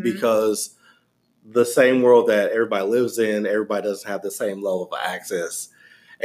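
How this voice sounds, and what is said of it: Southern US accent. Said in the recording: “I don't know if you can hear his accent, but he's from the South ... from the dirty South”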